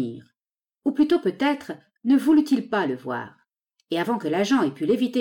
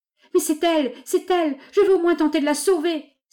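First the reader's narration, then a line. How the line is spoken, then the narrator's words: Straining, struggling exclamation. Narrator (French): s'écria-t-il en s'efforçant de se dégager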